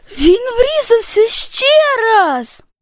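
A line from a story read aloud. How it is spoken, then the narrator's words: Terrified exclamation, antelope. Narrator (Ukrainian): Із жахом вигукнула антилопа Дік-Дік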